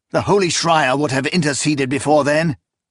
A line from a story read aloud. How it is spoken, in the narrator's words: Proya snapped, unwilling to acquit anyone of this crime